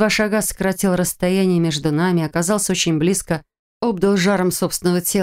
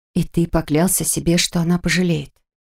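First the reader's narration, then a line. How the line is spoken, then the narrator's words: Silent mouthed whisper. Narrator (Russian): Одними губами прошептала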